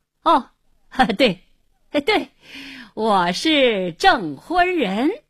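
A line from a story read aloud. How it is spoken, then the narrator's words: Forced hearty laughter. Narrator (Chinese): 胡经理这才明白，要想发作，一转念，看他故意哈哈大笑，连声说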